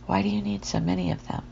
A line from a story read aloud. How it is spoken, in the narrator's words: River asked in a softer tone, not wanting to push her